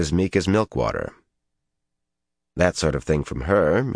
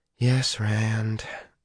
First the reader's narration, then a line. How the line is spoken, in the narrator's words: she sighed and said